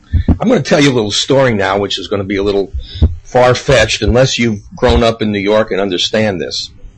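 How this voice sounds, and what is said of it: Slightly raspy voice. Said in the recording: “my voice sounds like uh, it's got a uh, uh, a little raspiness to it, I got the weirdest cold”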